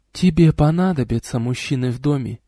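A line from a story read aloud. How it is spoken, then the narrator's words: Whispered. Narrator (Russian): шепнула она мне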